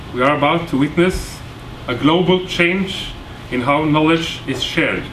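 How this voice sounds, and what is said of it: Norwegian-accented English. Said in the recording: “speaking English with this bad Kjesås accent”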